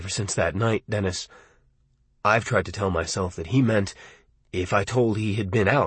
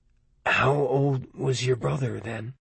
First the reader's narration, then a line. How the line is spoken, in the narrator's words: I asked hoarsely